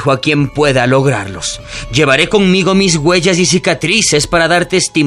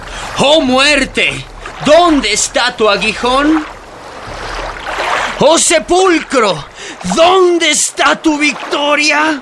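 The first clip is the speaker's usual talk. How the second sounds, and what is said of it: Triumphant, exultant declamation. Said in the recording (Spanish): “Con estos acentos de triunfo”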